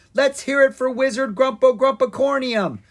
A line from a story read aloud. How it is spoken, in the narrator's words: Ella yelled